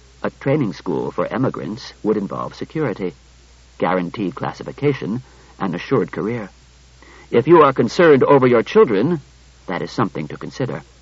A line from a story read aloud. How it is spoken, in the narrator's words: Daniil said evenly